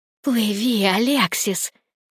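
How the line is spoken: Hissed from nearby. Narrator (Russian): прошипела Никс где-то неподалеку

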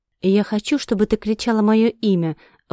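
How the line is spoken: Breathy exhale. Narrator (Russian): выдохнул Рохт

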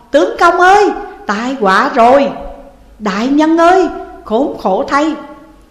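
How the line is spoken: Crowd wailing loudly. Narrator (Vietnamese): ai nấy cũng đều thi nhau gào to

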